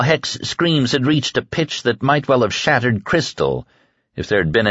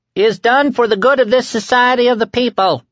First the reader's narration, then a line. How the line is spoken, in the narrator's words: Winky screamed relentlessly